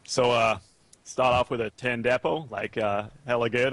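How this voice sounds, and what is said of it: Silly put-on Californian American accent. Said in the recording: “Californian accent ... I can try and do, like, a silly American accent”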